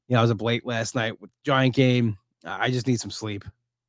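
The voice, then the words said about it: Tired, low-energy voice. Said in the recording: “I'm exhausted. I really am. I'm sorry if my voice sounds like, you know, if I'm not peppy ... holding back ... I am so tired.”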